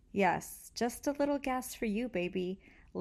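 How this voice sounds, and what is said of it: Sultry, seductive voice. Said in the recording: “Lynn said in a sexy voice.”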